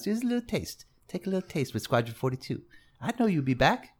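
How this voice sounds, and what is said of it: Creepy drug dealer character voice. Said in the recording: “that creepy voice ... my drug deal voice”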